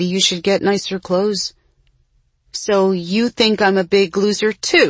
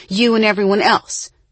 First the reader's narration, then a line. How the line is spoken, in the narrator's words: Jessie snapped